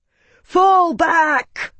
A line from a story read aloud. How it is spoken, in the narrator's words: Marcus screamed to his men in the tumult